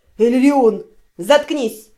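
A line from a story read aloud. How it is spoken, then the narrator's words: Barked. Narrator (Russian): рявкнул тот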